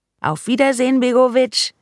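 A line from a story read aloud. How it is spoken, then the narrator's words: Calling out. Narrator (German): rief sie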